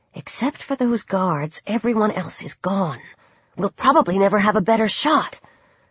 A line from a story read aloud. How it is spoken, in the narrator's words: Cindy continued in a whisper